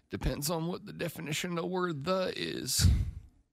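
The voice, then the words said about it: Bill Clinton impression. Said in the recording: “my Bill Clinton impression.”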